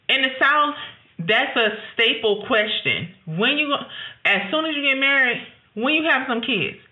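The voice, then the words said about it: Southern US Georgia accent. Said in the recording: “If you can't hear the accent, that's why I'm from Georgia.”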